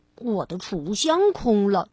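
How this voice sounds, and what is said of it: Quiet muttering. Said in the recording (Chinese): “小声的嘀咕着”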